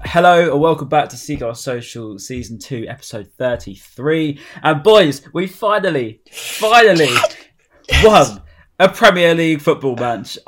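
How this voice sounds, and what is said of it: Croaky, slightly hoarse voice. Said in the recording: “my voice is still a bit bad... it's not 100% yet. It's still a bit croaky.”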